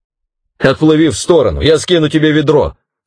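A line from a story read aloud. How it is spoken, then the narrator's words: Shouting. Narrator (Russian): снова крикнул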